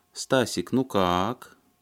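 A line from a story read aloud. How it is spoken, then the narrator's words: Affected drawl. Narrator (Russian): она манерно протянула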